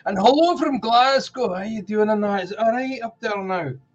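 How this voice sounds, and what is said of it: Attempted Scottish accent. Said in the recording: “That wasn't too bad of an accent, actually. That was better than most of my attempts.”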